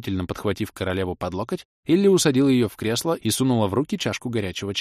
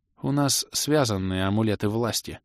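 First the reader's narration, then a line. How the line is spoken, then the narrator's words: Quiet confession. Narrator (Russian): тихо призналось ее Величество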